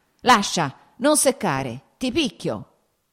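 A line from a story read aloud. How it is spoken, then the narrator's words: Shouted. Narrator (Italian): gridò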